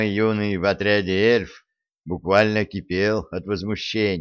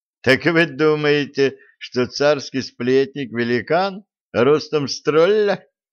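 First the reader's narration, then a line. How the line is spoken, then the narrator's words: Young man's skeptical snort. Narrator (Russian): хмыкнул юноша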